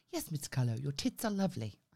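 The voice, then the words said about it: Posh accent. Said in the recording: “he spoke really posh ... I do enjoy the use of tits in that accent”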